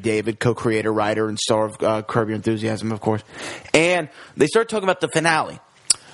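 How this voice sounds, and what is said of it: Usual voice. Nothing is said of it.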